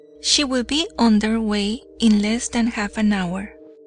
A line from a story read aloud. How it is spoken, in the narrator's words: he answered